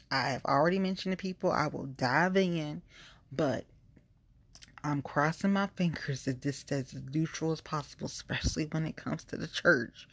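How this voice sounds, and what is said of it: Southern Georgia twang. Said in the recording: “now my twang is coming through. Georgia is coming.”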